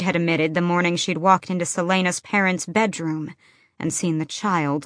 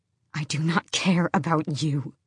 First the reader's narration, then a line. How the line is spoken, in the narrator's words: she hissed to Emrys and Malachi and Luca